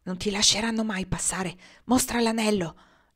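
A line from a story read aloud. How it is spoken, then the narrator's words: Breathy whisper. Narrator (Italian): gli bisbigliò l'uomo in un soffio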